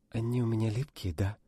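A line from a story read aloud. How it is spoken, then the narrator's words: Breathless whisper. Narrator (Russian): прошептала Настя, задыхаясь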